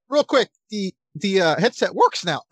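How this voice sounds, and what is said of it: Voice cracks mid-sentence. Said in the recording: “my voice cracked ... I'm going through puberty”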